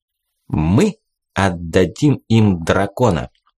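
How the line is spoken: Solemn. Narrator (Russian): Руш торжественно произнес

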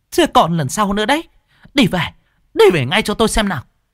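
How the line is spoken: Shrill hiss. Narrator (Vietnamese): con mụ sư tử rít lên

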